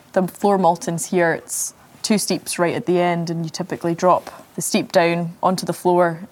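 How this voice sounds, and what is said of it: Scottish accent. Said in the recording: “I've got a different type of Scottish accent.”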